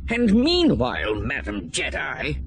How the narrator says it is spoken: spat

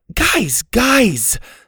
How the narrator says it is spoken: Suzie shouted

